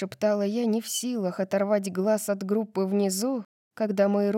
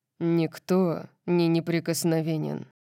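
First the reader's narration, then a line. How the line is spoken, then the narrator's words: Deep rumbling tone. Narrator (Russian): сказал Орион ракочущим тоном, который затронул глубокую струну в моем сердце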